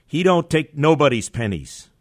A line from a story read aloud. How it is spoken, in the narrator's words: the woman shout